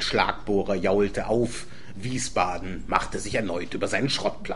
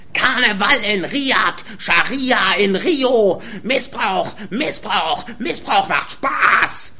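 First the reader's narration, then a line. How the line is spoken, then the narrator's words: Shouting through loudspeakers. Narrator (German): schrie Michas Stimme aus den Boxen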